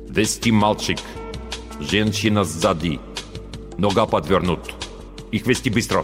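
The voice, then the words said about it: Harsh foreign accent, broken speech. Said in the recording (Russian): “с жестким акцентом сказал командир наемников”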